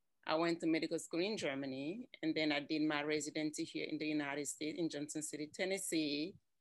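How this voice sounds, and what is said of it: Cameroonian accent. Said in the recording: “I'm from Cameroon. That is where my accent comes from.”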